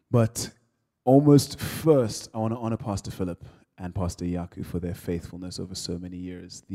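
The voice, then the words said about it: Nigerian accent. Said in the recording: “I'm from Nigeria, for those of you who can't hear the accent.”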